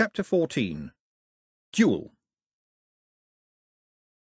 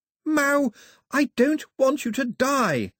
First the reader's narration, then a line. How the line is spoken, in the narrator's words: Daphne shouted